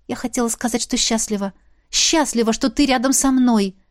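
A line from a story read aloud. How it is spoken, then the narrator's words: Breathless. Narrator (Russian): Выдохнула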